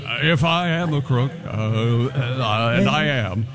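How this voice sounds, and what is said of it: Nixon impression, maybe like Jimmy Stewart. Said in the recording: “Is that your best impression, or is that Jimmy Stewart?”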